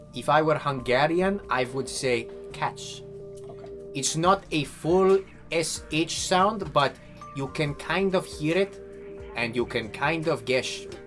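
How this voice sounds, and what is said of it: Put-on Hungarian accent, pitched up. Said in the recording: “That was not a bad Hungarian accent ... you may notice I pitched it up”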